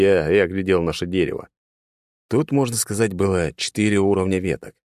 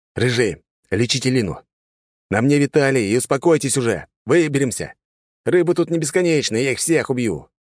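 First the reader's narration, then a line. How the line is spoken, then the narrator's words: Loud and confident. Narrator (Russian): говорил я громко и уверенно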